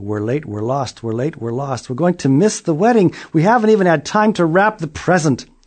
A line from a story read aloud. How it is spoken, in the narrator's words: a family came down the road yelling